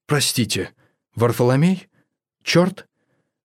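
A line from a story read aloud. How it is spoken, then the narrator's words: Very quiet colorless voice. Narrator (Russian): Голос был таким же серым и неприметным, как и одежда, и звучал очень тихо, словно его хозяин не слишком привык выражать мысли вслух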